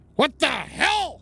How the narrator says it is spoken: I shouted towards the rat

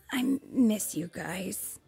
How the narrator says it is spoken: he whispered

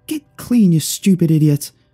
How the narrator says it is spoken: shouted Eve

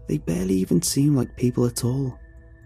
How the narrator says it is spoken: say quietly

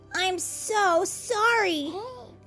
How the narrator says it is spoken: Little Bat cried

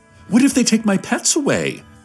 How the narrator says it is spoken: someone with 37 iguanas sobbed

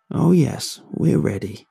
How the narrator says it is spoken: Bobby said

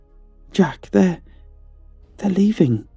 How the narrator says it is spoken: she exclaimed, with the faintest hint of relief in her voice

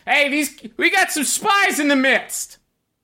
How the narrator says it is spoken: they yell

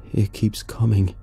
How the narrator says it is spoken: he mumbled

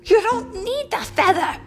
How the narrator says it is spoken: cried Timothy

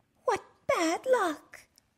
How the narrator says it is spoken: cried

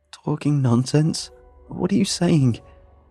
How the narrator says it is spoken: I choked out

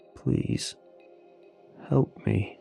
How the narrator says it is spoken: he said, his voice nearly breaking

